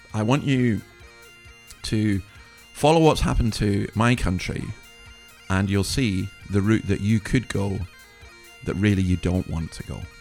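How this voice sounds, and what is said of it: Slightly rough, hoarse voice. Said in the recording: “forgive my voice. I've recovered from COVID ... So my voice is a wee bit rough”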